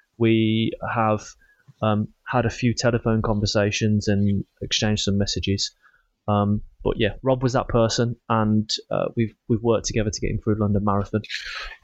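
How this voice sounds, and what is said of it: Birmingham English accent. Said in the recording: “a guy with a Birmingham accent”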